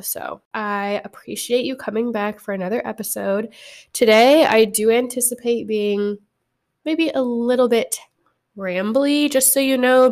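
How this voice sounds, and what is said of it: Slightly sick, not-ideal voice. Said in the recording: “apologize for my voice. ... I am at the end of being just a little bit sick, and so it does not sound ideal.”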